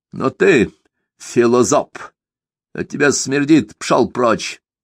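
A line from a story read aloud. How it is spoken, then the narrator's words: Rough interruption. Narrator (Russian): грубо ворвал Сумароков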